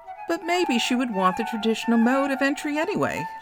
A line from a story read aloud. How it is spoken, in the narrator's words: laughed Brea